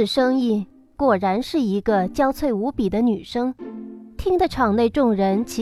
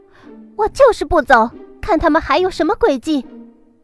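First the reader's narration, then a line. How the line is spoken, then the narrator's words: Loud voice from inside sedan. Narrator (Chinese): 有人在轿子里大声的道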